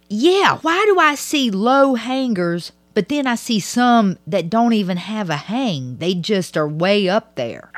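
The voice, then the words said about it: Southern US accent. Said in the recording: “How you don't understand my accent? ... Mine, too. ... Where does it sound like I'm fucking from? ... The fucking South.”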